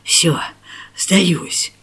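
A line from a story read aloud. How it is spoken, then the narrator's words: Hoarse rasp. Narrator (Russian): прохрипел он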